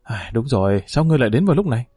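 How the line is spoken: Sighing. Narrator (Vietnamese): Triệu Nhan thở dài nói

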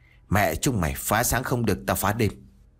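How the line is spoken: Fat man muttering curses. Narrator (Vietnamese): Tên mập ... lẩm bẩm chửi

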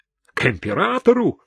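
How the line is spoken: Shouted, sergeant. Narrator (Russian): крикнул сержант

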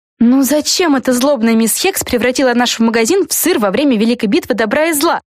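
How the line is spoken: Exclamation. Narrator (Russian): Воскликнула Флафанора

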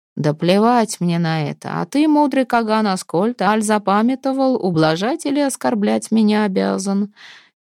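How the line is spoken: Laughing. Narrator (Russian): Дир же смеялся

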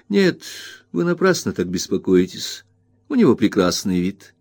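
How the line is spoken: Calm reply. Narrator (Russian): ответила Агнес, спокойно занимаясь своим рукоделием

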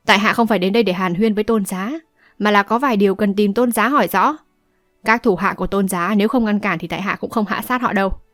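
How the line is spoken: Cold. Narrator (Vietnamese): Âu Dương Thu lạnh lùng nói

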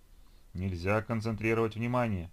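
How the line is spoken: Booming bass. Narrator (Russian): прогудел басом пролетевший откуда-то снизу скафандр космонавта

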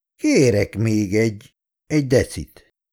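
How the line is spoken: Slow groan. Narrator (Hungarian): nyögte lassan

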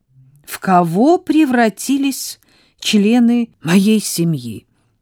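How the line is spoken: Loud complaint. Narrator (Russian): громко посетовала Сара

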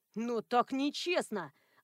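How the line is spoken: Offended crowd wailing. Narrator (Russian): обиженно завыла очередь на разные голоса

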